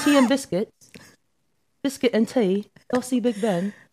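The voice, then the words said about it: Put-on British accent. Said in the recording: “Did I kill that accent? ... A British ... work on my accents”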